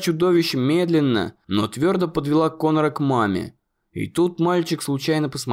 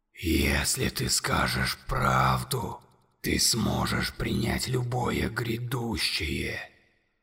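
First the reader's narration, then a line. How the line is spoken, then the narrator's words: Monster whispering in ear. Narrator (Russian): прошептало чудовище ему на ухо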